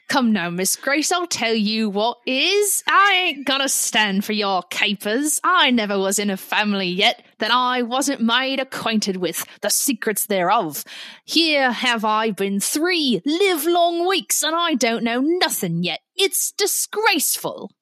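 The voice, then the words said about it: Deliberately bad put-on accent. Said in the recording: “Forgive me for this horrible accent that is incoming.”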